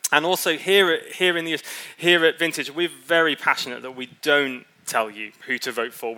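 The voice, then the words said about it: Non-American accent. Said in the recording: “As you can tell by my accent, if you're new, I don't come originally from the US.”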